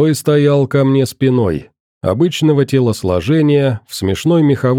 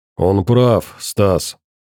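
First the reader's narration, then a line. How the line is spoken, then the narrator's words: Deep bass voice. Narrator (Russian): пробасил толстый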